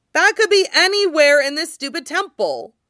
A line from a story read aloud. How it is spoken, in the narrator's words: Luo Fanli yells